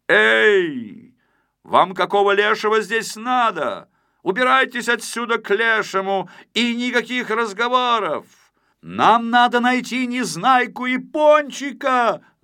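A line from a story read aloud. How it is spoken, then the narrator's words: Shouted reply. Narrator (Russian): закричал в ответ Знайка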